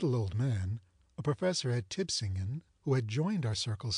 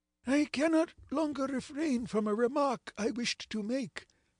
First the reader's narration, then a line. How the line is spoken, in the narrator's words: exclaimed he at last